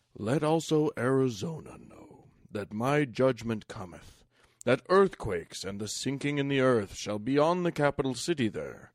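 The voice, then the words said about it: Solemn Mormon leader preaching voice. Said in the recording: “I'll try and do my Mormon leader voice.”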